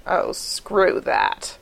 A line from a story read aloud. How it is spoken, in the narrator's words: Gibbs growls